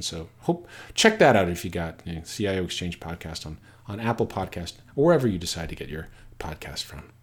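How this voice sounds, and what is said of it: Polished radio-style voice. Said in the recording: “Great radio voice, that guy.”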